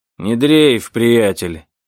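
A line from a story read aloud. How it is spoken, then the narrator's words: Deep bass voice. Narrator (Russian): пробасил полицейский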